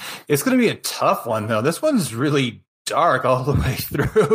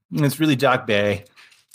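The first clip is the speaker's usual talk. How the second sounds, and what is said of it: Brief put-on Boston accent. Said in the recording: “I did a Boston accent... Boston, kid... I had to say two words, though. That's my range.”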